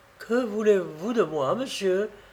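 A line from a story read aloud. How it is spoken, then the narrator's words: Moved, emotional voice. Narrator (French): lui dit-elle d'une voix émue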